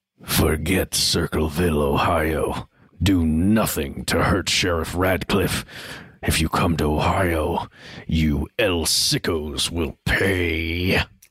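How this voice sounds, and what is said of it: Sinister menacing voice. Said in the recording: “want to do a sinister voice? ... I feel like this needs a good sinister voice.”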